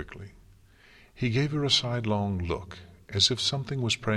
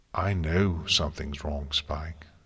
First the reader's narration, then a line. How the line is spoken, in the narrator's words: she said as calmly as she could